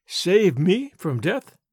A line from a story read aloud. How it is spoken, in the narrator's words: asked, in a puzzled tone